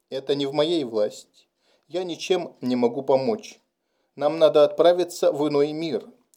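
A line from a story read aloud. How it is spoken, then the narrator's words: Gentle reply. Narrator (Russian): Гекка мягко ответил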